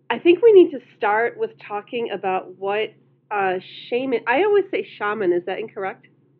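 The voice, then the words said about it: Speaks with a noticeable accent. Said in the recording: “it's the way you say it, it's your accent”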